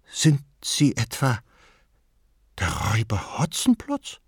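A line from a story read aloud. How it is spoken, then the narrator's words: Pale frightened question. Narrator (German): wurde sie blass und mit ängstlicher Stimme fragte sie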